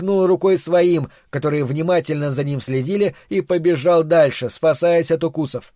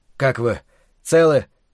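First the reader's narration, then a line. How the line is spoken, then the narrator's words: Breathless hoarse wheeze. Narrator (Russian): задыхаясь, прохрипел он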